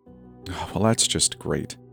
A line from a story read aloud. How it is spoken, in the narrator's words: I muttered, frustrated